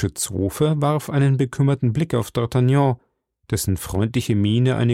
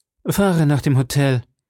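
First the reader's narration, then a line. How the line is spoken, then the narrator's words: Cold call. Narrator (German): rief dem Kutscher kalt zu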